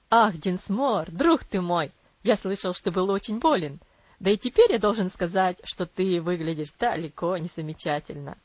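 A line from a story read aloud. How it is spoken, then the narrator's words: Cheerful hearty exclamation. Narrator (Russian): воскликнул Травилла веселым сердечным тоном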